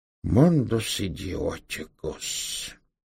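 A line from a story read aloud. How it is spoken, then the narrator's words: Dull, muffled. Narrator (Russian): глухо повторил он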